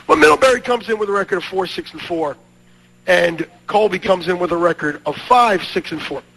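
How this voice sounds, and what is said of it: Scratchy, hoarse voice. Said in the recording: “pardon my voice, as 'tis the season for throats to be scratchy”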